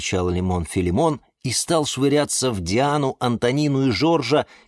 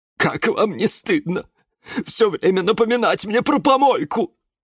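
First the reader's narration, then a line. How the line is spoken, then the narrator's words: Near tears. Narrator (Russian): Была готова разрыдаться Розалия Львовна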